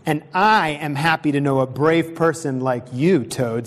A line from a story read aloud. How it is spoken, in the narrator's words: said Frog